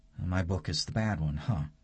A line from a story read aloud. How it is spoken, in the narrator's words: she asks